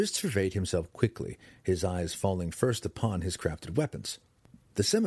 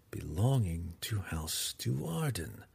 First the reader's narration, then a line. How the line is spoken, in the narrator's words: Drizzt whispered aloud